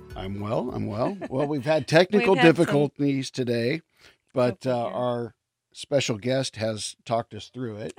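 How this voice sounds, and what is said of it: Polished sports announcer radio voice. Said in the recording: “you have such a great sports announcer voice. I feel like I called into like AM 570 sports.”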